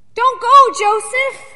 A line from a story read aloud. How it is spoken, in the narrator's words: Wally cried